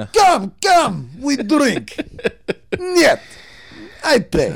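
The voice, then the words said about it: Put-on Russian accent. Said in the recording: “the more vodka, the more your accent comes out... Suddenly, you're part of the Bratva. You're part of the Russian mafia.”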